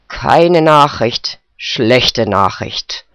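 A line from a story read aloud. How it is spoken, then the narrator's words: Grumbling old man. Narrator (German): brummte der Alte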